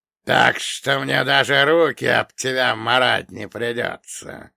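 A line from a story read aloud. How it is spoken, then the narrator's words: Booming rumble. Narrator (Russian): прогудел напоследок капитан Нагльфара, теряя к Черномору интерес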